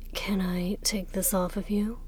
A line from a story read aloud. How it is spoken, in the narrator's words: Hua Cheng murmured against her lips